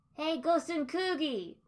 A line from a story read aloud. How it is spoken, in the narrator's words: Naruto shouted, voice breaking the dark stillness of the air like a glass shattering on the ground